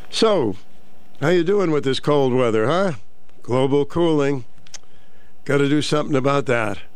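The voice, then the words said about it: Nasal, congested voice. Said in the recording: “I'm nasally, eh? ... I still sound nasally”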